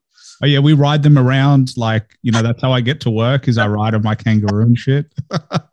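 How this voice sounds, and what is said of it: Australian accent. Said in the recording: “I like your Australian accent.”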